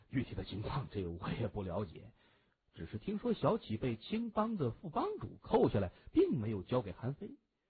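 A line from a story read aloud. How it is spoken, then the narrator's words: Wry. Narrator (Chinese): 刘波苦笑着说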